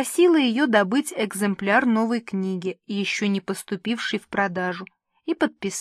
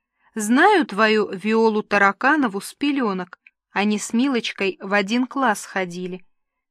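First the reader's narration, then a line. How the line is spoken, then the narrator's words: Laughing. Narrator (Russian): А та, смеясь, сказала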